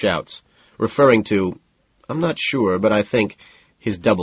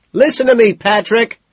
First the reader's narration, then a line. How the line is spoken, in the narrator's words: screams